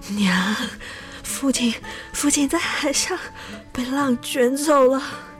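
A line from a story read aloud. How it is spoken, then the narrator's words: Breathless, tearful. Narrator (Chinese): 他红着眼睛，气喘吁吁地说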